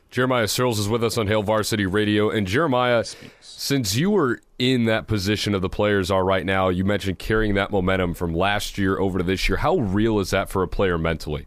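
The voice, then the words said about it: Polished radio announcer voice. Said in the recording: “fantastic radio voice”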